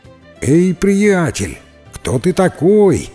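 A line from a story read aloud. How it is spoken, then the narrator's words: Shouted. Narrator (Russian): прокричал ему Джек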